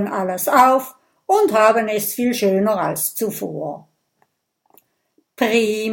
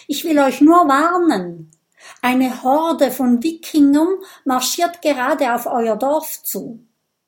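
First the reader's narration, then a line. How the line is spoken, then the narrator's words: Shouted. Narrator (German): ruft Kokosnuss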